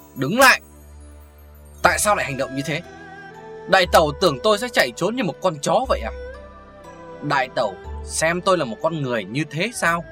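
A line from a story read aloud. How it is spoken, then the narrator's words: Loud angry shout. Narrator (Vietnamese): Lý Tầm Hoan quát lớn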